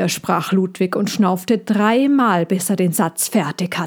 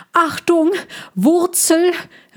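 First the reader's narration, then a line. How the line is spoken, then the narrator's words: Called out. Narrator (German): rief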